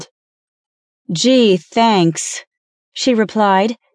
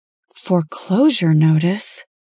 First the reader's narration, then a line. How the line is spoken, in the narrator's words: she murmured in shock